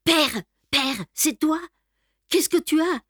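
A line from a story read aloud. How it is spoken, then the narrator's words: Panicked cry. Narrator (French): s'écria-t-elle affolée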